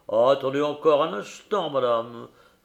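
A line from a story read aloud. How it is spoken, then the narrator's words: Tremulous, plaintive voice. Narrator (French): répliqua le vidame d'une voix aussi émue qu'une plainte de mandoline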